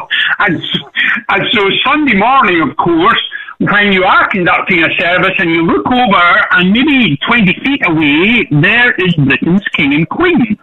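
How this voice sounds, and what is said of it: Rich Southern American accent. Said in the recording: “my rich southern accent”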